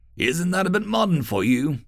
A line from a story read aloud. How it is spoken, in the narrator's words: Buxton laughed